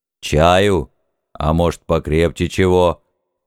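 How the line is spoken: Deep bass voice, priest. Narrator (Russian): Густым басом осведомился святой отец

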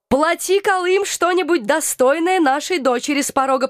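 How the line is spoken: Cheerful demand, greedy undertone. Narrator (Russian): потребовал мой папа у Алекса, весело подмигивая, однако не мог скрыть жадности в голосе

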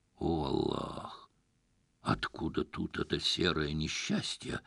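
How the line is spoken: Muttered under breath. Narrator (Russian): буркнул себе под нос Насреддин

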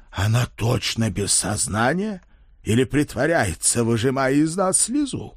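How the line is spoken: Barely restrained growl, old man. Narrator (Russian): уже едва сдерживаясь, зарычал старый крестоносец

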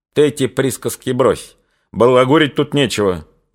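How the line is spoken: Angry. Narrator (Russian): уже сердито заговорил Лесницкий

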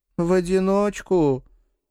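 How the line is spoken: Tired, wincing. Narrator (Russian): устало поморщилась Сильвия

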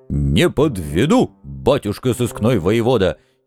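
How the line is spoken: Happy loud bark. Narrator (Russian): счастливо гаркнул он

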